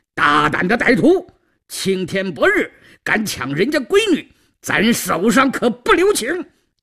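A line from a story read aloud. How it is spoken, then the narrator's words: Furious shouting. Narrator (Chinese): 黑旋风李逵在一旁早就怒火腾腾，…大声叫道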